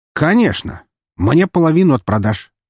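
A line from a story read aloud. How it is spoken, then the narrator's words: Snide reply. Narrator (Russian): ехидно ответил хакер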